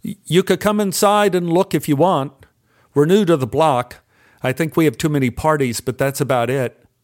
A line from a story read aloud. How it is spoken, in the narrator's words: I called out to them